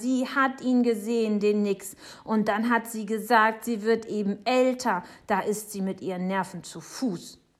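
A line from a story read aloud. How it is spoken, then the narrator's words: Shouting. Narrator (German): schreit Jonathan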